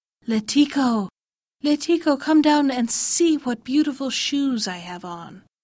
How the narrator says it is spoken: a lamia called out

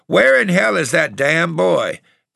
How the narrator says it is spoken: Grandpa would go straight ahead a while and then begin to holler

